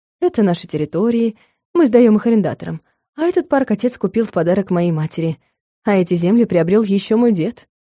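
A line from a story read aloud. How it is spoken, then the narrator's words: Matter-of-fact explanation. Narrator (Russian): Иринмар будничным голосом пояснял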